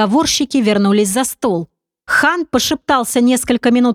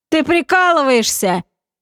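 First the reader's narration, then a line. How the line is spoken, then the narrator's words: Amused question after laughing. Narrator (Russian): Отсмеявшись, поинтересовался Хан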